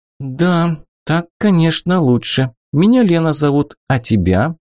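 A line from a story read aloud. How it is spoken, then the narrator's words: Sighing. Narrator (Russian): Ленка вздохнула и сказала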